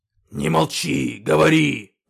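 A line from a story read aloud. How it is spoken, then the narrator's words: Growled by beast. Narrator (Russian): прорычал когтеклык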